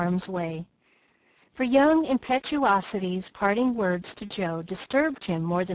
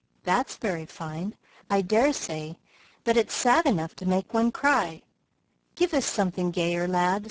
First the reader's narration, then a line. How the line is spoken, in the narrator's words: said Mr